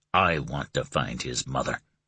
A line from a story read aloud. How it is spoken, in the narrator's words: he whispered hoarsely